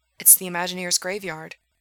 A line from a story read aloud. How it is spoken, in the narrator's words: Gerard said quietly